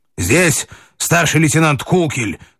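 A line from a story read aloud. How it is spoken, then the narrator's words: Shouted. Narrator (Russian): крикнул он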